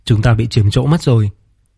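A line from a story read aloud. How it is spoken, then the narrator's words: Slightly displeased. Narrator (Vietnamese): Vương Triệt khẽ nhíu mày nói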